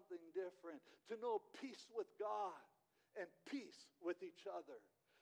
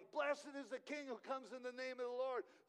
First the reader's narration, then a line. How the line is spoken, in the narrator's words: The people are shouting